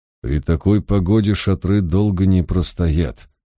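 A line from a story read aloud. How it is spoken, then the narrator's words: Through gritted teeth. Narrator (Russian): сквозь зубы процедил Мальверер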